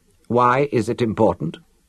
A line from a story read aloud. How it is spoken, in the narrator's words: Tanith asked